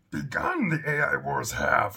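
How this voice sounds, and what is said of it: Crappy Yoda impression. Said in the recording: “my best Yoda impression ... that was probably a really crappy Yoda”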